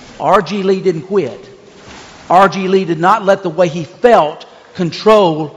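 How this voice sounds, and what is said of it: Usual voice. Nothing is said of it.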